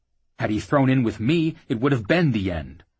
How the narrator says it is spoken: Jackal replied bitterly

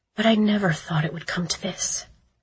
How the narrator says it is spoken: she said quietly

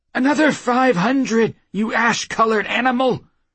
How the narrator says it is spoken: the wizard cried

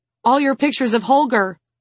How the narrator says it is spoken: Tima exclaims

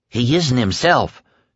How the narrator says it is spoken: Tom said

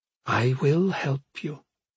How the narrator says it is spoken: she whispered

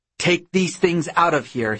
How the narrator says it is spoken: shouts

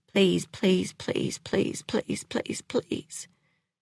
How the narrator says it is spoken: Clementine muttering over and over

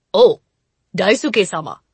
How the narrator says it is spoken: he called in a gruff, almost affectionate voice

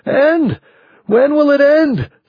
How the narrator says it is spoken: someone was screaming

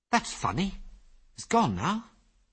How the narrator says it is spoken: said Ginger in a puzzled voice

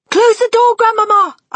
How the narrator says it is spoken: I cried

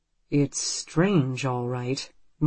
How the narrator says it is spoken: Marco says slowly

